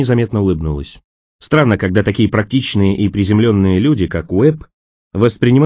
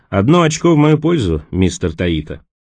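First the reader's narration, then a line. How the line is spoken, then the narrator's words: Satisfied snort, remark. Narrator (Russian): Удовлетворенно хмыкнув, он заметил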